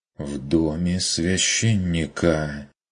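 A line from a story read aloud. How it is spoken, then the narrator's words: Quiet reproachful whisper. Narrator (Russian): С тихим укором прошептала она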